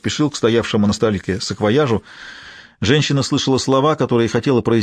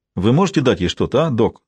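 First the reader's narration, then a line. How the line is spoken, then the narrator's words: Plain. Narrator (Russian): спросил Донуэй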